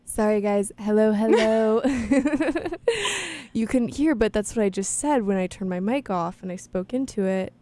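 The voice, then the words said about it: Calm public-radio announcer voice. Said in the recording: “that NPR voice ... is this my NPR voice? ... Boy, sure it is.”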